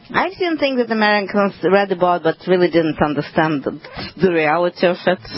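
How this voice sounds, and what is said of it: Ukrainian (former Soviet) accent. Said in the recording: “you have the most wonderful accent coming from where originally? Ukraine? ... Soviet Union. Well, actually, it was Soviet Union when I left. ... It's Ukraine now.”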